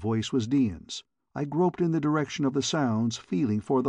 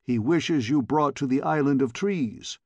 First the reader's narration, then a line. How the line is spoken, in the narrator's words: replied the man